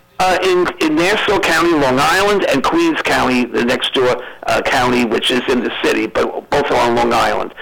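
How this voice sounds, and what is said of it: Slight New York accent. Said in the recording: “a little bit of a New York accent.”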